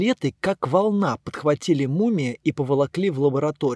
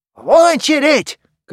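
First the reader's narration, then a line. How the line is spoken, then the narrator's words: Shouting. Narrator (Russian): кричал он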